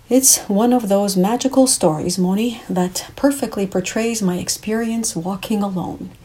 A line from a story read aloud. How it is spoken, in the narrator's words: he replied